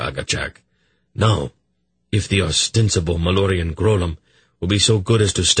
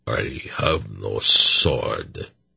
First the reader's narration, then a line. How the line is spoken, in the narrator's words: Harrigan said sullenly